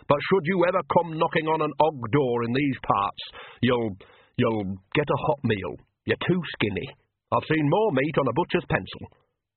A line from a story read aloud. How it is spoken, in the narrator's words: she said stiffly